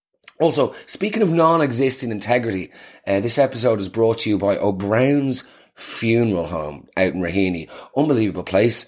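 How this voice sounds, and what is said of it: Nasal, hungover-sounding voice. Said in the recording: “I am incredibly hungover today, so forgive the nasal tone in my voice”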